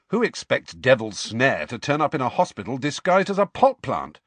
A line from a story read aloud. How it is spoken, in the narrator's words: said Ron sharply